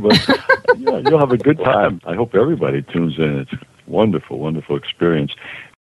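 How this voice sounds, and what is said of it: Slightly raspy voice. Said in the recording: “it's a little raspy today ... I'm a little bit raspy”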